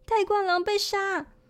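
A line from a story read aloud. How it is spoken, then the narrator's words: Loud scream. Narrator (Chinese): 他女儿大叫一声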